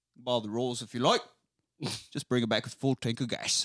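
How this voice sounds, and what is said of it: Imitated Cockney-style British accent. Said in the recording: “I like your Michael Caine accent ... that's a pretty distinctive voice ... It's like a Cogney”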